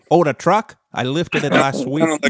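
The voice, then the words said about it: Poor put-on Michigan accent. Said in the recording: “That was a terrible Michigan accent.”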